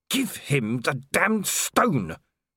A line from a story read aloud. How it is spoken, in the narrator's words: she hissed